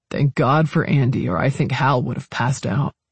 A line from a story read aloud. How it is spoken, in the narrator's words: he muttered